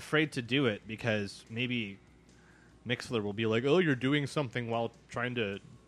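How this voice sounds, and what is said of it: Usual voice. Nothing is said of it.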